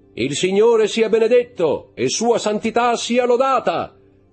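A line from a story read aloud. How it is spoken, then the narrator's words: Loud, clear voice. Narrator (Italian): disse con voce alta e chiara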